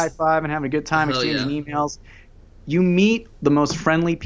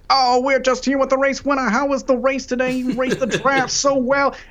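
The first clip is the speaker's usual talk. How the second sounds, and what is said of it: Imitates a race broadcaster's voice. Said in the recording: “trying to do my best Chris Economaki impression”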